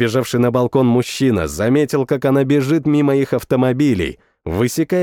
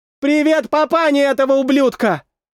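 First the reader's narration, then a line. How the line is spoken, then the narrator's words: Girl shouting. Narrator (Russian): Прокричала девушка напоследок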